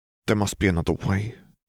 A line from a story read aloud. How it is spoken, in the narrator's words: mumbled